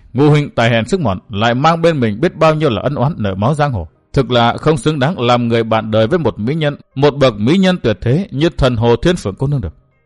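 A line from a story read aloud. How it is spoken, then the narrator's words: Sighing reply. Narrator (Vietnamese): Thường Ngộ Thanh thở dài đáp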